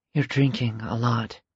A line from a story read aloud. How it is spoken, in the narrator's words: Carmen whispered